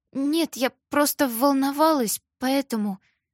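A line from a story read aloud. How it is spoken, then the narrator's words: Quiet mumble. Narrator (Russian): Коллега пробормотала тихим голосом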